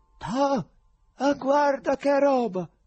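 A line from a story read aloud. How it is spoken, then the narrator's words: Exclaimed. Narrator (Italian): uno di loro esclamò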